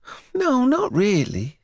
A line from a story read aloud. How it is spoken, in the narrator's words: she sighed again